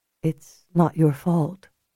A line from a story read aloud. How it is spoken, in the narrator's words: Julia said softly